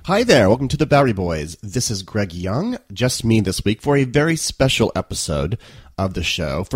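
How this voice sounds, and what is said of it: Congested voice from a cold. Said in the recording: “I have a little bit of a cold this week, so my apologies. I sound a little different.”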